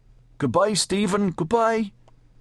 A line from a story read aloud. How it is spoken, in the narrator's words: They had cried to him from the car